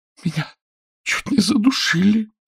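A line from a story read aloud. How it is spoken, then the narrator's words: Choked rasp. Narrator (Russian): сдавленно прохрипела она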